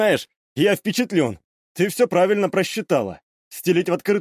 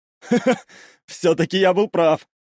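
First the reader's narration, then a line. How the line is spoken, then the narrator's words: Laughing young man. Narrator (Russian): рассмеялся парень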